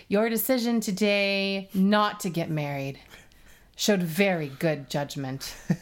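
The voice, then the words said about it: Dramatic soap opera voice. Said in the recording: “in her soap opera voice,”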